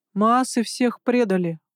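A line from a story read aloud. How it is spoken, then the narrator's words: Hollow, muffled voice. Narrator (Russian): глухо произнес Саим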